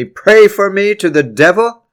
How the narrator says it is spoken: With all his remaining strength, he shouted

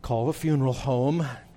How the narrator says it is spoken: quietly say

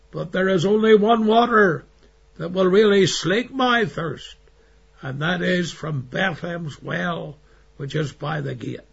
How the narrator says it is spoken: he cried

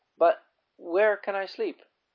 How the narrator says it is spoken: Gladys inquired timidly

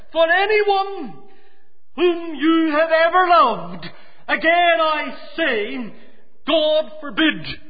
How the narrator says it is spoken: exclaimed Farrar

